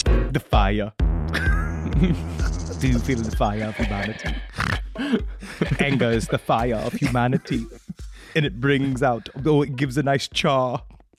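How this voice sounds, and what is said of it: Put-on Werner Herzog-like accent. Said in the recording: “I can't even place the accent. It's like Warner Herzog, if like he never read a book.”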